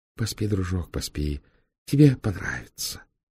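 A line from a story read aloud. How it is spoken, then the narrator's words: Whisper. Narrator (Russian): прошептал Фандорин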